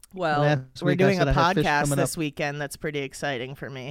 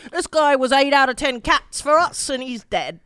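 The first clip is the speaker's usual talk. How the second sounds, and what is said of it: Put-on accent. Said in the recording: “Pretty good accent, right ... Pretty good. I think it sounded good. To my ear.”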